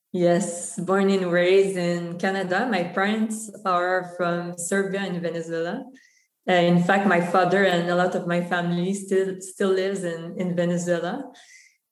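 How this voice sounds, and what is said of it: French-accented English. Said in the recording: “French is actually my first language. So that's the accent”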